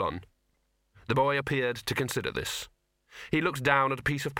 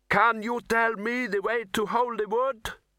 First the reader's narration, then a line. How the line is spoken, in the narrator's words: The boy cupped his hands around his mouth and shouted